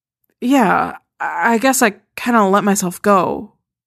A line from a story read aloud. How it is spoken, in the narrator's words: she mumbles, ducking her head, hearing the hidden criticism in the compliment